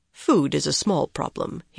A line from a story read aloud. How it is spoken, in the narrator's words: he said smoothly